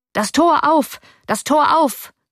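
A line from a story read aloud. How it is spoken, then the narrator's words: Voice calling out. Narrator (German): rief eine Stimme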